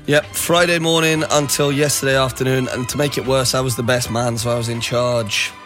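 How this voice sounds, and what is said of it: Hoarse voice. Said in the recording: “sounding a bit hoarse”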